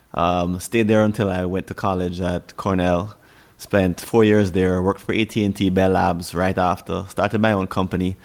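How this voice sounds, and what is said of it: Strong Jamaican accent. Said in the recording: “I have a very Jamaican accent”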